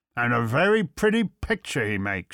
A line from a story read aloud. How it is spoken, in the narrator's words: sneered